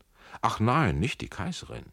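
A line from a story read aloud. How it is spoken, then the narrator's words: Calling with ugly laugh. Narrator (German): rief mit einem unschönen Lachen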